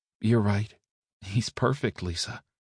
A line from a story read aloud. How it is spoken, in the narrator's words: sighed